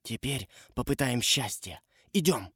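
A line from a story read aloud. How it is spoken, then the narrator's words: Whispered. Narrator (Russian): Том шепнул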